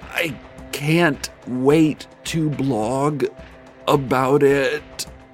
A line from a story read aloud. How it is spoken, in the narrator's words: the blogger said through gritted teeth